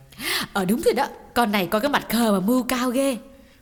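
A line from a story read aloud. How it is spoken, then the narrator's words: Two voices cheering together. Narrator (Vietnamese): Xuân và Thu cùng reo lên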